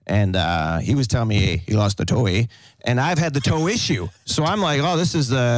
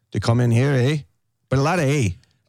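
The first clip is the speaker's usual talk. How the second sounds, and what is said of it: Imitated Canadian accent, tight-lipped. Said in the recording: “Canadian accent ... they sound like this ... They sound like us, but like a little bit tighter lip”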